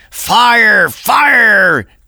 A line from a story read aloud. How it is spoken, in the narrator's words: they shouted in wild voices of alarm